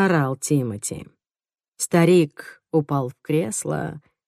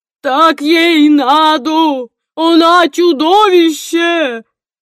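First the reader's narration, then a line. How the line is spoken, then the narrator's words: Wailing yell. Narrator (Russian): вопил он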